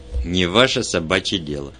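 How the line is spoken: Growled. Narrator (Russian): рыкнул Джонни

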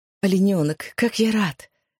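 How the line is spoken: Breathed out. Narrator (Russian): выдохнул он

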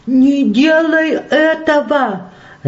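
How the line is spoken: Old woman screaming. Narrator (Russian): закричала старушка

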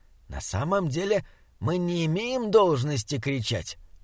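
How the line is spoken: Whisper. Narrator (Russian): прошептал он удивленному Саймону

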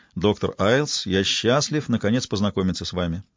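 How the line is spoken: Plain. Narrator (Russian): сказал Робинсон

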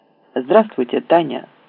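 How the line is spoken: Plain. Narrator (Russian): сказал

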